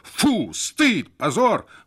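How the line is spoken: Two voices shouting in unison. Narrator (Russian): в один голос закричали Бернард и Надельсон

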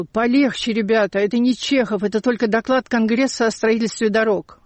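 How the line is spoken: Groaning. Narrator (Russian): И наш венгр стонал

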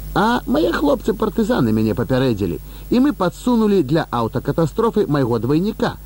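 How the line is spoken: Happy laughter. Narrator (Belarusian): шчасліва рассмяяўся Леў Міронавіч

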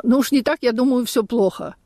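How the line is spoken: Laughing exclamation. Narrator (Russian): рассмеялась и воскликнула

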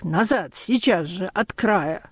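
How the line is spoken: Hoarse, unrecognizable scream. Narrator (Russian): хриплый, неузнаваемый крик

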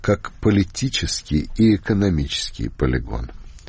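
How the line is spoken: Gentle respectful correction. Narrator (Russian): мягко и уважительно пытаясь поправить Устинова, сказал

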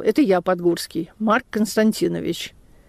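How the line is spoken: Calm old man. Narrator (Russian): Старик спокойно сказал

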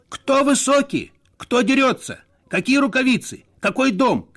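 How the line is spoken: Confused, hurt shouting. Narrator (Russian): кричал Надельсон, смущенный и обиженный

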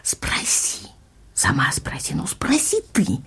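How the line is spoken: Heated whispering. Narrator (Russian): слышали горячий шепот ее и мамы

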